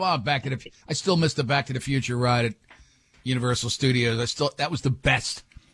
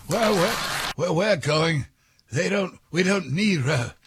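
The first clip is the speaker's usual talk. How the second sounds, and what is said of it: Impression of Doc Brown. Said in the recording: “Let me do the voice.”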